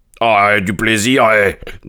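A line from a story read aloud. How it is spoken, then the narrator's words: Man grumbling. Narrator (French): grommela l'homme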